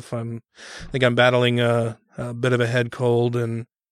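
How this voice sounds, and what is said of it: Congested, unsteady voice. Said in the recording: “I'm a little congested myself... my voice is kind of going in and out”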